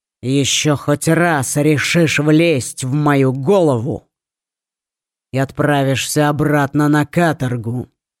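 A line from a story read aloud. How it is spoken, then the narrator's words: Growling. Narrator (Russian): прорычал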